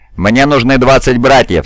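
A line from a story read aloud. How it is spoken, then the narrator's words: Plain. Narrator (Russian): сказал капитан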